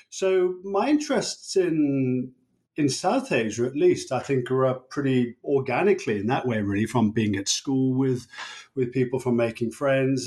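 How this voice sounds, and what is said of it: English Birmingham-area accent. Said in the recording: “as one might tell from my accent, I grew up in England and near the city of Birmingham”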